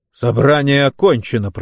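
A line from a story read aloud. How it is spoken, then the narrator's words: Growled into microphone. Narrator (Russian): прорычал Рэй прямо в микрофон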